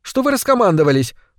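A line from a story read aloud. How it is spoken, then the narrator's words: Indignant question. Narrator (Russian): возмущенно спросила Яна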